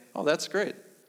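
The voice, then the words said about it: Flat deadpan delivery. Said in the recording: “said rather deadpan”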